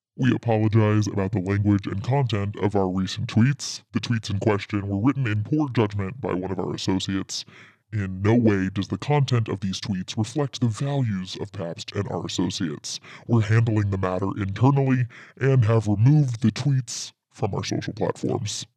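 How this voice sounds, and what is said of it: Put-on voice reading a statement. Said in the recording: “I should change my voice for this. ... do your impersonation. ... voice effect that was.”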